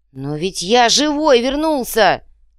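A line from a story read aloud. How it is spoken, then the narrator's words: Exasperated wail. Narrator (Russian): взвыл Иголка, поражаясь тупости сородичей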